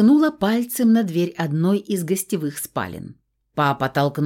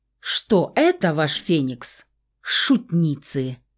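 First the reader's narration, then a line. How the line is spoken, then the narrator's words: Growl. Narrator (Russian): Рыкнул папка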